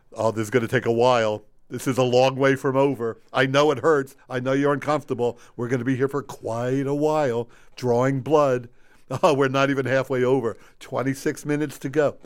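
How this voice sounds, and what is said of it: Impression of a friend as doctor. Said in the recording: “This is my impression of Ken, injecting someone with a needle. ... That's my impression of you. ... that's a decent imitation”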